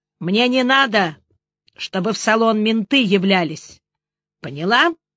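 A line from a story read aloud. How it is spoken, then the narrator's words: Menacing question. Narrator (Russian): грозно спросил он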